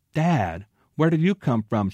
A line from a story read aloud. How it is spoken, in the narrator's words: exclaimed